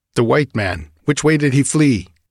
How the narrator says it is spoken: Nalonga shouted something

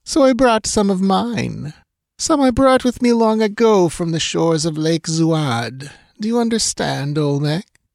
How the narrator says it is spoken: purred the princess

